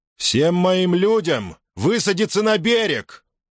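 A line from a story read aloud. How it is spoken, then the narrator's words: Loud shout. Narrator (Russian): громко крикнул Юлий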